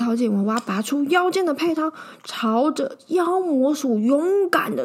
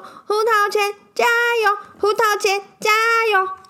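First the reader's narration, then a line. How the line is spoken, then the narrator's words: In unison. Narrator (Chinese): 你们一起说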